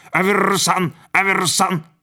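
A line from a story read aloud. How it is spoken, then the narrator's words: Sudden loud squawk. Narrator (Russian): Вдруг попугай заорал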